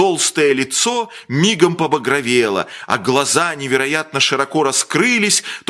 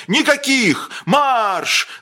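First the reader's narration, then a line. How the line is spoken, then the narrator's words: Shouting with throat whistle. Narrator (Russian): закричал с каким-то даже свистом в горле фрачный человек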